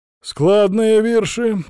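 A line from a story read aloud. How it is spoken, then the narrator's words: Priest's approving grunt. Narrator (Russian): одобрительно хмыкнул поп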